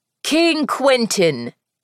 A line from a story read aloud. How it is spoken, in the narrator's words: Jameson said loudly